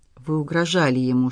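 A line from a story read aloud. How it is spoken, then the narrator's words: Whispered question. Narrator (Russian): шепотом спросила Ульяна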